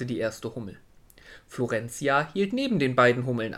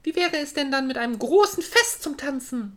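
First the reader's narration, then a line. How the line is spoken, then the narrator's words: Excited. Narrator (German): sagte Florentia und klatschte aufgeregt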